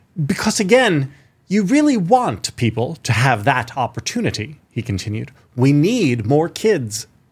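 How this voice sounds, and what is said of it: Tommy Tuberville impression, almost British. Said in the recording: “Almost British in this new voice of yours ... Good Tuberville. That's the best Tuberville I've ever heard.”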